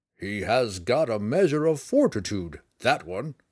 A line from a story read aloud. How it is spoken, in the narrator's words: the portly friar chuckled